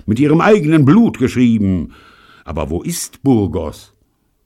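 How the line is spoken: Calling out. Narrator (German): rief er

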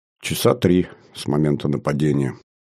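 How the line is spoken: Dejected, sinking voice. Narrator (Russian): совсем упавшим голосом ответила Светлана

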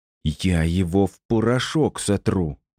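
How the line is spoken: Hissed. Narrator (Russian): прошипела она

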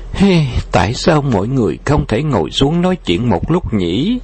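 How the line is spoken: Melancholy sigh. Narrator (Vietnamese): Nàng u uất thở dài một tiếng rồi nói

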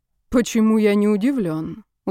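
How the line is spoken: Weary sigh. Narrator (Russian): устало вздохнул

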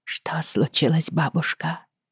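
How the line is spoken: Quiet. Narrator (Russian): тихо произнесла Бри

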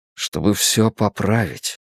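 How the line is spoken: Quiet. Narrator (Russian): тихо сказал я

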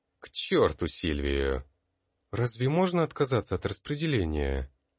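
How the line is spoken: Girl speaking uncertainly. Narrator (Russian): неуверенно произнесшую эту девушку

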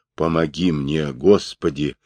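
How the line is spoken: Whispered. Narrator (Russian): прошептал Тагорил

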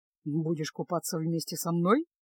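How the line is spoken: Ironic, calm question. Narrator (Russian): Иронично усмехнувшись, уже совершенно спокойно поинтересовался Кайл

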